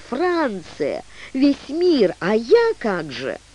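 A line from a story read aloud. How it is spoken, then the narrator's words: Exclaiming. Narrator (Russian): Дебора воскликнула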